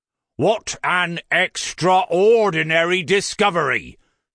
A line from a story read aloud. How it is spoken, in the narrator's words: thundered Falk sarcastically